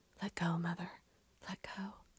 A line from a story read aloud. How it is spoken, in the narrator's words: whispering once again